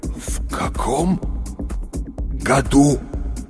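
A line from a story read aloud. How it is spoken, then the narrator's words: Effortful clenched-jaw words. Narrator (Russian): Наконец выдавил он, с усилием сводя челюсти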